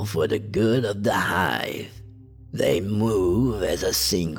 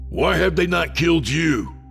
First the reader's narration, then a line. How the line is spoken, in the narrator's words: I growled in anger